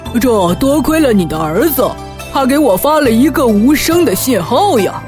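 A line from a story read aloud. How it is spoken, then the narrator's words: Smiling. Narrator (Chinese): 更夫笑了笑说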